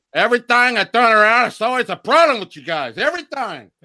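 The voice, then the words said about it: Imitates a movie character's voice. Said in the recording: “a pretty good Tony Montana imitation”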